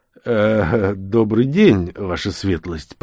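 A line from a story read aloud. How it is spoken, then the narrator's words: Mumbling. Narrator (Russian): промямлил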